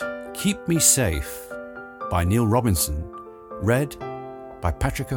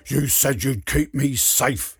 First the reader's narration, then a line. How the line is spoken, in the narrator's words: he snarls